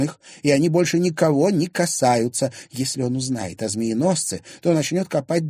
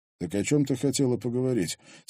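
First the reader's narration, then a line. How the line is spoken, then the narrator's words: Quiet question. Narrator (Russian): тихо спросил Кощеев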